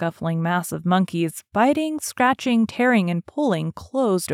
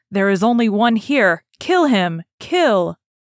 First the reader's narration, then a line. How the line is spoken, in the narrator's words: a monkey shouted